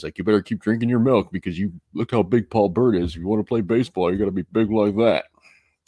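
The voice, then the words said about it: Imitated New York accent. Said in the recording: “He'd said that in his New York accent... I like your dad's impersonation there... It wasn't really very good.”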